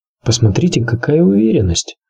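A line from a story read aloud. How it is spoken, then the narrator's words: Muttered. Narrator (Russian): буркнул Варис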